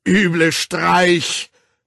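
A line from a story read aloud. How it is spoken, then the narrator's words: Roared. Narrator (German): brüllte der Direktor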